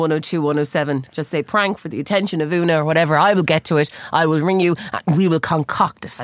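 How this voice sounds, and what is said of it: Usual voice. Nothing is said of it.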